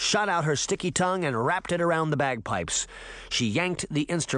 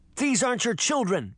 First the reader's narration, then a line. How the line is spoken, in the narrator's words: Sabrina shouted